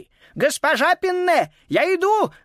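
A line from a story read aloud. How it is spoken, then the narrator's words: Agitated shout. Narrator (Russian): взволнованно прокричал он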